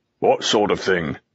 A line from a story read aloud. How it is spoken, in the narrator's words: growled the other, a big, beefy person